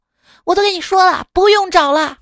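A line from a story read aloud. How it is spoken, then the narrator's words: Shouted. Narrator (Chinese): 冲司机喊道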